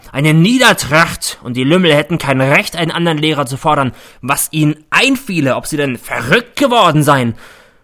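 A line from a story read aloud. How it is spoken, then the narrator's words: Bellowing. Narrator (German): brüllt er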